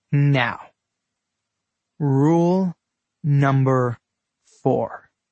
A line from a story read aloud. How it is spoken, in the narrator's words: he said, slowly stressing each word